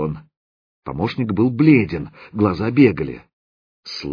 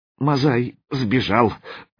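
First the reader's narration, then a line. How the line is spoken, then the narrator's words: Forced out, hesitant. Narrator (Russian): выдавил заточка, не решаясь войти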